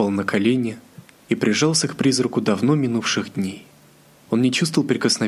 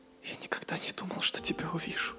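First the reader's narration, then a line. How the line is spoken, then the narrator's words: Whisper. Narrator (Russian): прошептал дракон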